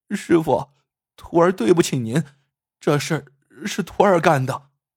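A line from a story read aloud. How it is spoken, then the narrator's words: Crying confession. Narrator (Chinese): 风儿低着头 哭着说道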